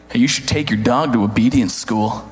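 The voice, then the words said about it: Condescending voice. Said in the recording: “in a real condescending voice”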